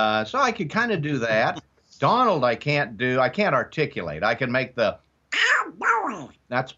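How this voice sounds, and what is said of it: Usual voice. Nothing is said of it.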